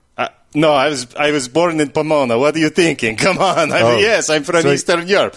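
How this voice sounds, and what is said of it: Put-on Eastern European accent. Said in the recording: “you have an interesting accent. You must have immigrated from Eastern Europe.”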